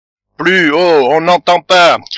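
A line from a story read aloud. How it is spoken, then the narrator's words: Shout. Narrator (French): cria Tortillard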